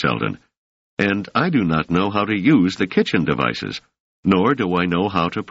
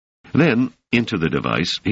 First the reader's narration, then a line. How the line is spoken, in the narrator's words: he said more firmly than ever